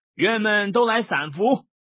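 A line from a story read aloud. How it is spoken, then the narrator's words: Calling out. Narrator (Chinese): 李逵便叫众庄客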